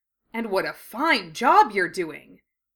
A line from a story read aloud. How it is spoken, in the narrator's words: Fred exclaimed